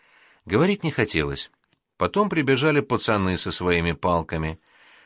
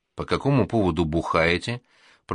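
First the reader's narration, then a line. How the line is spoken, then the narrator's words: Through gritted teeth, wife. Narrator (Russian): процедила Лехина супруга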